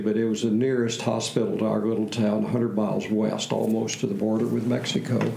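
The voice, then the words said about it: Slight Texas accent. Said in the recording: “I detect in you, and this is a setup, I detect in you a slight Texas accent.”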